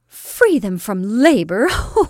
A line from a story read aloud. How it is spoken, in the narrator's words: laughed Lydia